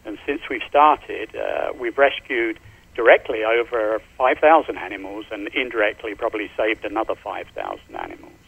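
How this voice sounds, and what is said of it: Slight London English accent. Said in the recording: “I noticed from your voice that you've got a little bit of a accent. ... I'm from London.”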